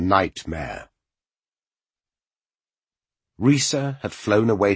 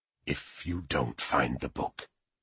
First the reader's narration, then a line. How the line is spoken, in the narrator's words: Silvertongue had whispered to him